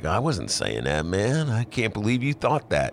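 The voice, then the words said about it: Imitates another person's voice. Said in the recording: “my Dylan imitation ... It's not bad. It's not bad”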